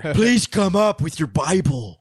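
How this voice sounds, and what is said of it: Imitates another person's voice. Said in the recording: “That's my Nick Cage impression”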